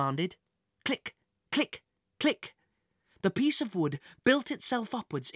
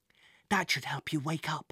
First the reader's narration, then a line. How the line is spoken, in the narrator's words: whispered Jack